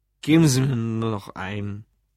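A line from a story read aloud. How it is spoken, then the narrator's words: Slurred drunken speech. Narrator (German): lallte Lou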